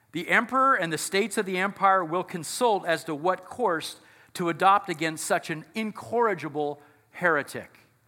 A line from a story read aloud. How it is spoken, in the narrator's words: shouted